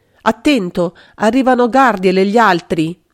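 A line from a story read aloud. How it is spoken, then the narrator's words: Shouted. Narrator (Italian): Magda aveva gridato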